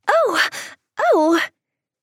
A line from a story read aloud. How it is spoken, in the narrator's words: Della cried